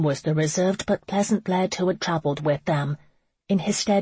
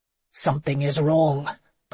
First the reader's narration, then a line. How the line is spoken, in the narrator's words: Connor stated, his voice cold